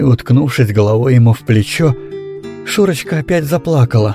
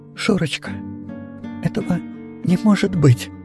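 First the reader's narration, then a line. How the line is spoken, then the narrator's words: Very quiet, fearful. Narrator (Russian): сказал он так тихо, как будто сам себя боялся услышать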